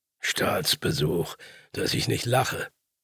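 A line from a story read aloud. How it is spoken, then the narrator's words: Grumbled. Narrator (German): brummte der andere Buhlspieler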